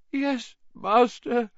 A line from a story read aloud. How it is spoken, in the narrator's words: moaned Wormtail